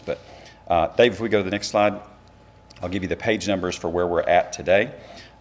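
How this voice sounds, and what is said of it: Raspy, hoarse voice. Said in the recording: “I apologize for the raspy voice ... my voice is a bit raspy today”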